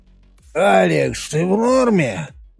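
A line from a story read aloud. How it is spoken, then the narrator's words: Hoarse voice. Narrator (Russian): послышался хриплый голос Мёрфи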